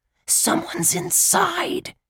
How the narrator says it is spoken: Josh hissed

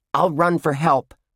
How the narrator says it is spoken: Ruth Rose yelled

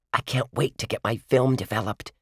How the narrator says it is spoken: she whispered

